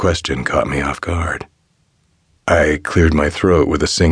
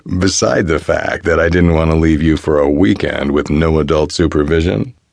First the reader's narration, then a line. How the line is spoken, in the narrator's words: he laughed